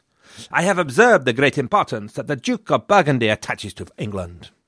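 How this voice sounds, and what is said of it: Poor put-on Italian accent. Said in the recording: “the appalling attempt at an Italian accent”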